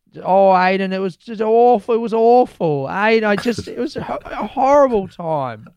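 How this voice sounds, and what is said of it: Imitates an older woman's voice. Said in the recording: “You're making Anne sound a lot older than she clearly is with that impression ... a perfect impression”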